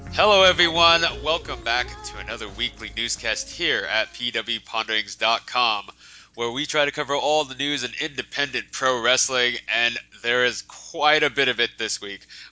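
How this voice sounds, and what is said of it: Congested, weird-sounding voice. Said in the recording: “I apologize if my voice sounds kind of weird. My allergies are just destroying me.”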